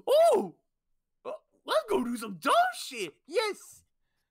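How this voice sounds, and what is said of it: Good impression of a character. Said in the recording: “that's actually quite a good impression”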